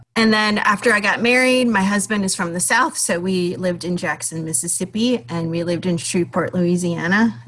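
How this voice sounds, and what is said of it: Minnesota accent. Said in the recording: “you might hear from my accent. I never think I have an accent until I actually hear myself talk, and then it's quite obvious that I'm from Minnesota.”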